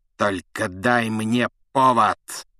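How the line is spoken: Hiss. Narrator (Russian): прошипел Снег

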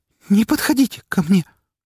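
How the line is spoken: Trembling voice. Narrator (Russian): повторила она дрожащим голосом

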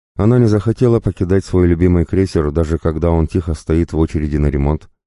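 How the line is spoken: Plain. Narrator (Russian): ответила Наэма

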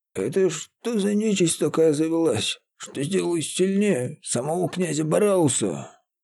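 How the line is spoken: Frightened mutter. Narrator (Russian): Испуганно пробормотал Феодор

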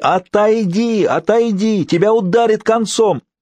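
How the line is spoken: Feeble wheeze. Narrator (Russian): из его горла вырывалось лишь бессильное сипение

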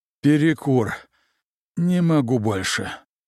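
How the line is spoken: Exhausted exhale. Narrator (Russian): устало выдохнул Толик

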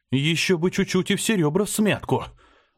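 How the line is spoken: Breathless exhale. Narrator (Russian): выдохнул я

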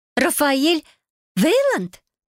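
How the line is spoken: Stunned exclamation. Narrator (Russian): ошеломленно воскликнула

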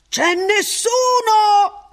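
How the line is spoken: Cheerful, chatty shout. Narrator (Italian): Ransom gridò, stavolta quasi garrulo

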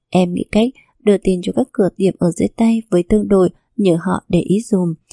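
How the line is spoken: Quiet instruction. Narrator (Vietnamese): Thu Sương nhỏ giọng mà căn dặn

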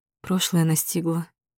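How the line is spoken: Quiet. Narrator (Russian): тихо произношу

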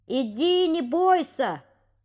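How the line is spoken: Shout. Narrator (Russian): крикнул ему Петя

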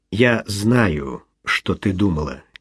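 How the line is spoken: Quiet. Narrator (Russian): тихо отозвался он

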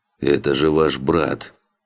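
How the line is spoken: Frightened hoarse rasp. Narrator (Russian): Прохрипел Марио, больше испуганный выражением лица Тейн

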